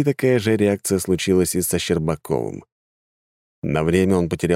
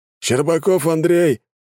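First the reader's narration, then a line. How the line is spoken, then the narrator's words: Shouted, military official. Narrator (Russian): выкрикнул военком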